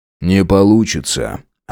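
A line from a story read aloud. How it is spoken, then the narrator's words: Smirking grunt. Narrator (Russian): хмыкнул Громов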